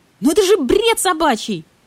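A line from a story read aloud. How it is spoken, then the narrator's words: Wailing creature. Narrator (Russian): завопил барсукот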